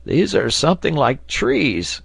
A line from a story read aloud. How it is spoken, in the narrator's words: cried Neb